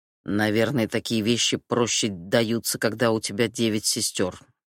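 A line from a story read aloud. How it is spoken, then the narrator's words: Grumbling to himself. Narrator (Russian): проворчал Хамид про себя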